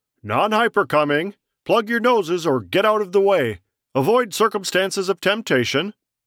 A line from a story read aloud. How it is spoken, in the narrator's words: the priest cupped his hands to his mouth and called out